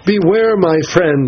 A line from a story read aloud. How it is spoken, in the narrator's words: By instinct cried